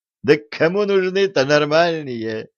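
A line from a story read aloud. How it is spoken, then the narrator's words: Laughing. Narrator (Russian): рассмеялась миллионерша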